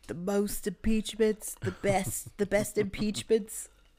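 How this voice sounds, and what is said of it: Imitates another person's voice. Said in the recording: “I'm not good at a Trump impression”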